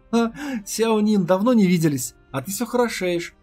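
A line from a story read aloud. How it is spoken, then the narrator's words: Awkward laugh. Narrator (Russian): засмеялся Ли, чувствуя себя немного не в своей тарелке, потому что из-за него у девушки теперь проблемы с Хуань Ланжо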